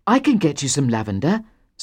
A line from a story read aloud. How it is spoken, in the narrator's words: said Aaron eagerly